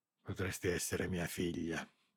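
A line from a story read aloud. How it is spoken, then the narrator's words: Barely audible murmur. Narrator (Italian): lo sentì mormorare, distinguendo appena le parole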